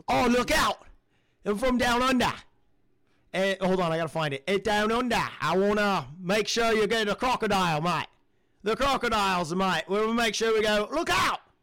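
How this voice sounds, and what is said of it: Put-on Australian accent. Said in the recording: “I was working on my Australian accent. ... That was not bad.”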